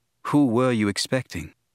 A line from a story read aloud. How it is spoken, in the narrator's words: Obi-Wan said